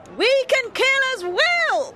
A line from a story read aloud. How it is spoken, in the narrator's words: she cried as she led the women forward